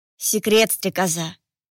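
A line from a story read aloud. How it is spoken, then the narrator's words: Normal-voiced reminder. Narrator (Russian): Уже обычным голосом напомнил Холайне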